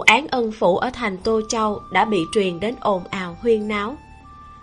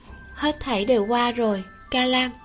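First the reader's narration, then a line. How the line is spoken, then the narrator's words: Soft gentle voice. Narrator (Vietnamese): Nhiễm Nhan nhẹ giọng nói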